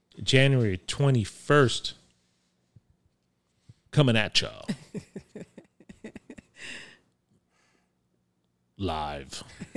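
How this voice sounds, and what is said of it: Attempted radio DJ announcer voice. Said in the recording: “I was trying to do my DJ voice, but that's not going to work.”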